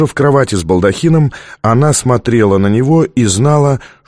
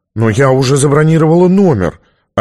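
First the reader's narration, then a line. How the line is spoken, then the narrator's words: Offended. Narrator (Russian): обиженно сказала Сьюзан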